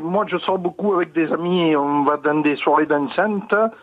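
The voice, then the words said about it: Marseille French accent. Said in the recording (French): “Vous avez le vrai accent de Marseille”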